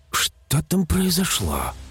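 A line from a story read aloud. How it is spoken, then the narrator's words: Muffled whisper. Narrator (Russian): прошептала Эльвира, прижав ладонь ко рту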